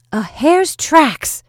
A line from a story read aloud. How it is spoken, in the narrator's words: exclaimed Natasha, and her voice pierced the frozen air like an arrow